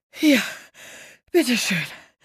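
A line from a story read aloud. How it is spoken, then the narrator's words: Panting. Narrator (German): keuchte sie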